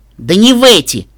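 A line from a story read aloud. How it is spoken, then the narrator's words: Sharp. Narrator (Russian): Резко бросила она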